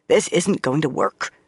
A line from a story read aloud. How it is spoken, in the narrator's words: Swan muttered between gnaws at a large crusty roll